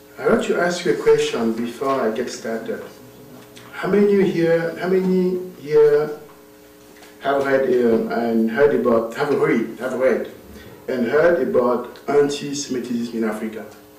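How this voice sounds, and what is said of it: Non-native English accent. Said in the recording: “I forget all my English ... my accent is not so very good”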